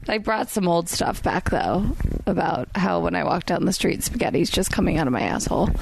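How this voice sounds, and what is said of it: Hoarse voice. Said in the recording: “that's why I'm hoarse.”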